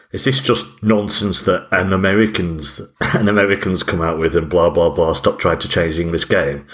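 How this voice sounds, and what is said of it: Imitates another person's voice. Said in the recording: “my Gary Neville impression”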